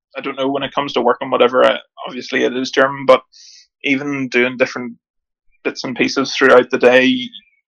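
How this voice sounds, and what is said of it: Mild Northern Irish accent. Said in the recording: “I will never ever lose my accent ... You never had a broad Northern Irish accent, ... but you certainly haven't lost the sound of home to your voice when you speak English”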